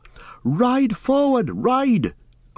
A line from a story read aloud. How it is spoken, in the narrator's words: cried Glorfindel to Frodo